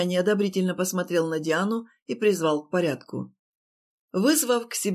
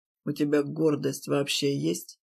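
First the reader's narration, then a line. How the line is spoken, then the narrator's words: Quiet. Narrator (Russian): проговорил тихо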